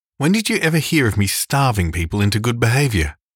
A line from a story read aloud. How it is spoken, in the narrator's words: demanded Marilla indignantly